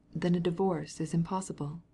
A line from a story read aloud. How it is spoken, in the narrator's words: asked gently